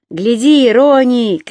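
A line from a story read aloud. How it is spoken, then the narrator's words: Shout. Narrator (Russian): крикнул Бирк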